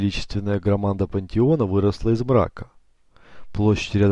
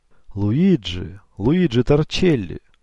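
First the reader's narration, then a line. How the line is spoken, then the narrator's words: Loud exclamation. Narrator (Russian): громко воскликнул Эгидию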